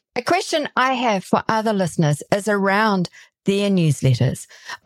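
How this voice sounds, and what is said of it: Speaker with a noticeable accent. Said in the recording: “I love your accent.”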